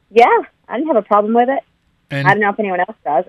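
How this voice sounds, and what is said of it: Australian accent. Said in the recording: “you can tell ... has an accent. You're from Australia.”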